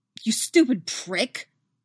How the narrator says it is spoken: she snarls

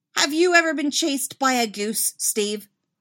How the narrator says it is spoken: Dustin snaps

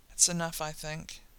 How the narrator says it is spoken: Dean murmurs, voice ragged already

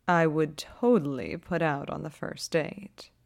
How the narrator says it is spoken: Holtzy purrs, a note short of serious

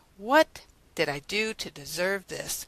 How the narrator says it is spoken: sigh

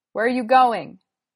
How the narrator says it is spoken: shouts

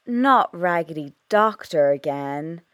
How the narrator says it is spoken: Rory groans, but secretly he's pleased

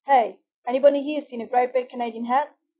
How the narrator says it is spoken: shouting

